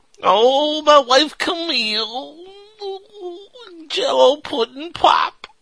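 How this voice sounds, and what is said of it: Bill Cosby impression. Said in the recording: “that impersonation of Bill Cosby”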